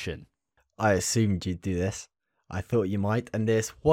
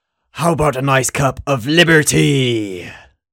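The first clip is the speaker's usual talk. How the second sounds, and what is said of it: Helldivers character impression. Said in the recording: “your best Helldivers impression”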